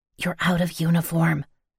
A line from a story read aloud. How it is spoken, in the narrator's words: I heard some girl whisper